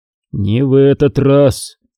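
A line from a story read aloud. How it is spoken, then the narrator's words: Gloomy. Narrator (Russian): мрачно сказал Куай-Гон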